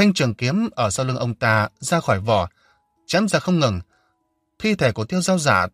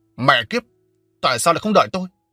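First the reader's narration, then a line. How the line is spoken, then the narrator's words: Furious roar. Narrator (Vietnamese): Giang Quốc Đạt tức giận đến tối sầm mặt mũi và gầm lên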